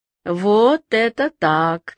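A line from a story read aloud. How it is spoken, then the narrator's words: Laughing, warrior. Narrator (Russian): сказал воин, засмеявшись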